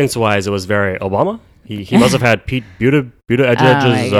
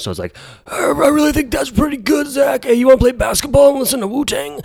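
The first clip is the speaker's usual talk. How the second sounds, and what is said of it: Husky teenage boy voice, breaking. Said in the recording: “your classic husky Jewish teenager... his voice has just started to change... that's my impression of a Jewish teenager”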